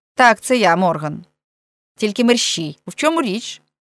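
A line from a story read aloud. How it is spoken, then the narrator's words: Angry interruption. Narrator (Ukrainian): сердито перепинив свого співрозмовника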